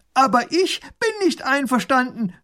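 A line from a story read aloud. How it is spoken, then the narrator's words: Calling across. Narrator (German): ruft er herüber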